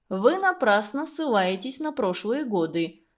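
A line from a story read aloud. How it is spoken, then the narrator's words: Calm objection. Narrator (Russian): спокойно возразил Константин Семенович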